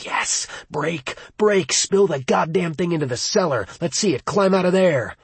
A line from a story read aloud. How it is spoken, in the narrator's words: a part of Will's mind screamed